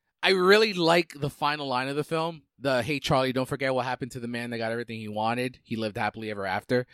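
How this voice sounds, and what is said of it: Usual voice. Nothing is said of it.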